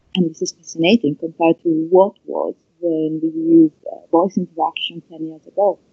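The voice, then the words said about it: Italian-accented English. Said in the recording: “my awkward Italian accent”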